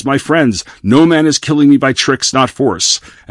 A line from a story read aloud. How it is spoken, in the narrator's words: he yells